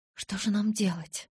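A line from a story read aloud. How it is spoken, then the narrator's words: Terrified whisper. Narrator (Russian): в ужасе прошептала я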